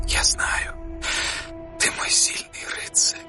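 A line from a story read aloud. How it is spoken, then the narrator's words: Whispered. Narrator (Russian): прошептала она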